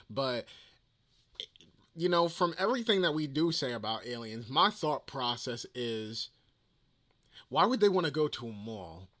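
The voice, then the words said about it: New Jersey accent. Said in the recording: “I don't hear my Jersey accent, but when I just said mall just now, I can really hear the Jersey accent.”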